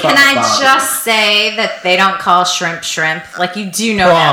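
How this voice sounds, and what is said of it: Usual voice. Nothing is said of it.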